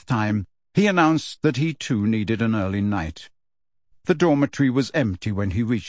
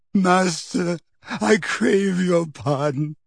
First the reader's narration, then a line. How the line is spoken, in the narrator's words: croaked the man kneeling